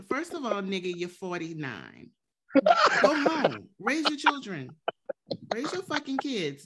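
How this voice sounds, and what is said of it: New Orleans accent. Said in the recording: “a person from New Orleans. That accent, it hurts a little bit more”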